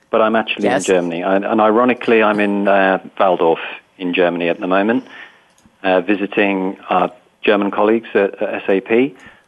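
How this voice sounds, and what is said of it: British accent. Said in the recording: “I sound British”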